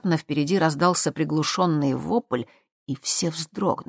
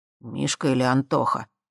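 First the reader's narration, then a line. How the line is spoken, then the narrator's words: Muttered. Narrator (Russian): пробормотал Марат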